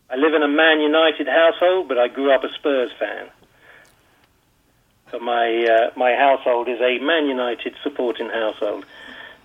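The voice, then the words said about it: British accent. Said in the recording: “I know the UK accent.”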